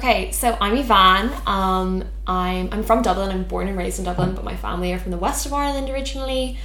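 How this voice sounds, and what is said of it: South County Dublin Irish accent. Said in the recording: “a South County Dublin accent ... another kind of like dialect in the Irish accent ... I even heard it in my own voice”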